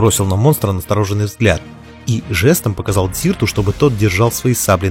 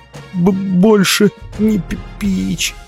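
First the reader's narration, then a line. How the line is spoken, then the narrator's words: Stuttering guttural self-pitying monster. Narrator (Russian): Заикаясь, произнесло чудовище гортанным голосом с явными нотками жалости к себе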